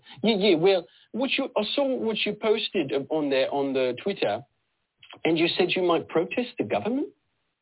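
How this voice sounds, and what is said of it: Mixed East London-South African accent. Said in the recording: “I don't know what accent I'm doing... it's like a mixture of East London and South African.”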